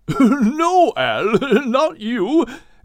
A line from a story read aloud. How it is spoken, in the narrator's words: Craddock said, as he continued to chuckle